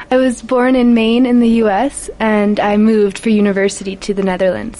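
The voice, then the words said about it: American accent. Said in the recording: “she has an American accent”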